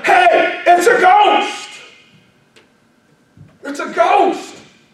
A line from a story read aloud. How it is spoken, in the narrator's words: they exclaim and tell him